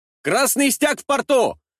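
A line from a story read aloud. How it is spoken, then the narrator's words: Distant shout from above. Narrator (Russian): прокричали с крыши дворца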